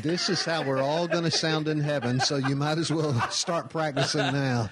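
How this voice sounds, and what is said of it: Southern American accent. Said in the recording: “he's got one of them southern accents.”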